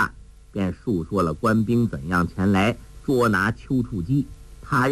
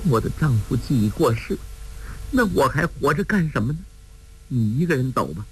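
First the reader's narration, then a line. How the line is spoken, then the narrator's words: Crying. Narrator (Chinese): 包奇若哭道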